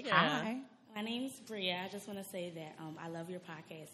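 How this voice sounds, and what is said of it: Shaky, nervous voice. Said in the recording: “my voice is shaking. I'm nervous a little.”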